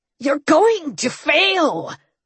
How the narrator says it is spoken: Dagon snarled

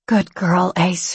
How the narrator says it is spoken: she murmured

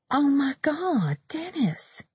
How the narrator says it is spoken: Lindsay said in a hushed voice

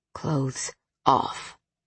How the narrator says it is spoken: he growled

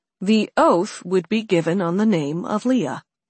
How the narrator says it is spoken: Alex said, keeping his tone cool, emotionless

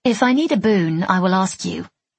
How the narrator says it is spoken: I said

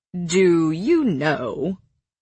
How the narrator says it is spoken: Cassian drawled to her

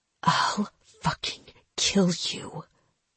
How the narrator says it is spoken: Aaron whispered, her voice thick with hatred

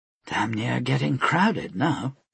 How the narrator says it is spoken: she muttered to herself

